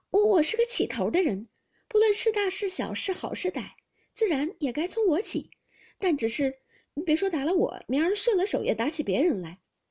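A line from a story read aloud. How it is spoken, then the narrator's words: Laughing through pain. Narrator (Chinese): 袭人一面忍痛，一面笑道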